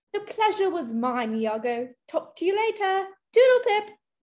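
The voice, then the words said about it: Distinct British accent. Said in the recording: “you speak with a distinct British accent”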